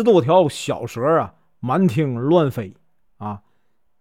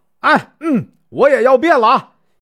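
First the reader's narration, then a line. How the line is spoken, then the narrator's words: Shouting. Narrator (Chinese): 嚷完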